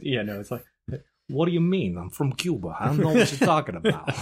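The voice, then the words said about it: Put-on Cuban accent. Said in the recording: “this is my Cuban accent”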